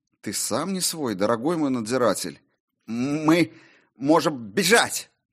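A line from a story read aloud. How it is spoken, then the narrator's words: Forced out with effort. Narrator (Russian): наконец выдавил он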